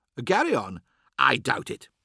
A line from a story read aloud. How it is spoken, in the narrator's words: said Offorth